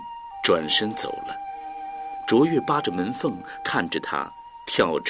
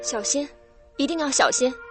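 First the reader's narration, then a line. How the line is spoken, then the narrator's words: Calling out. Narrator (Chinese): 卓越又叫住了他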